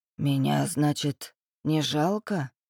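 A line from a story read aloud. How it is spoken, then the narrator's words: Hoarse reply. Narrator (Russian): хрипло отозвался Макс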